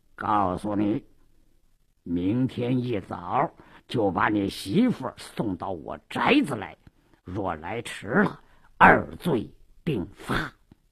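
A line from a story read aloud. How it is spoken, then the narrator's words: Lowered voice. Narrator (Chinese): 鲁斋郎压低了声音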